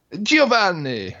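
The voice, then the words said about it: Put-on Italian accent. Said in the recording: “Can you do an Italian accent?”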